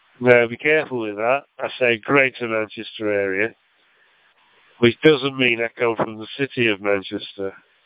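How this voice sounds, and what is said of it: Lancashire accent with American, Australian influence. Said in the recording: “my accent started to change slightly to have the American influence ... a twisting of the American accent with the Australian accent with my Lancashire accent”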